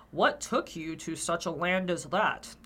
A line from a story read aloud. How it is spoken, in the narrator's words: asked the old man with a contemptuous grunt